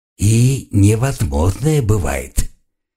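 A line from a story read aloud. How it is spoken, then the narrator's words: Hissing visitor. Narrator (Russian): прошипел визитер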